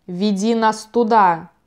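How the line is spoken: Growling. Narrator (Russian): прорычал Лемон

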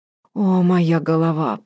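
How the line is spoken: Moaning. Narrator (Russian): простонала она

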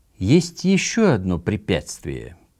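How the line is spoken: Slow, very solemn. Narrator (Russian): произнес он медленно и чрезвычайно торжественно

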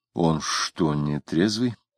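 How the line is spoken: Whispered question. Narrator (Russian): шептом спросил Самгин соседа

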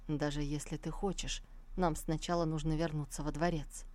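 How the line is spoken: Calm. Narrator (Russian): спокойно произнес

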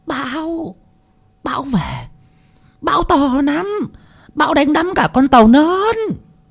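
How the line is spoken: Loud shout. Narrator (Vietnamese): Bà Tư lại hét to

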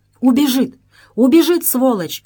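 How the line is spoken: Urgent shout. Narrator (Russian): крикнул Алим

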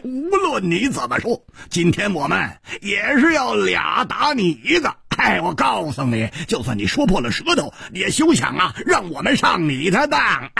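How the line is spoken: Laughing loudly. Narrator (Chinese): 胡铁花大笑着说

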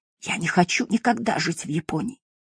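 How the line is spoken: Quiet. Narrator (Russian): Акира тихо добавил

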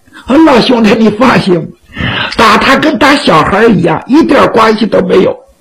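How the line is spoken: Playful, joking. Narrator (Chinese): 徐良仍然是嬉皮笑脸

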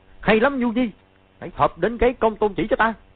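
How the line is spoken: Loud shout. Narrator (Vietnamese): chàng quát to

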